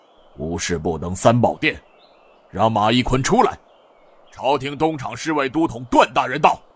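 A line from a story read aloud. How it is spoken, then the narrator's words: Low, irritated voice. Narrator (Chinese): 银衣侍卫似是有些恼火，沉声道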